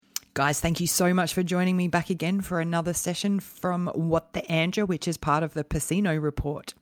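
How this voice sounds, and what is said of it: Husky, croaky voice. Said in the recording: “as you can hear, I have my sexy voice going on for you, so I'll try to keep that going without coughing”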